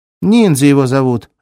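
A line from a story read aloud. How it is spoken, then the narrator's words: Barked. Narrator (Russian): рявкнула цифра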